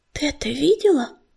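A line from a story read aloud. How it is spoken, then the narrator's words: Whisper. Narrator (Russian): прошептала пепелица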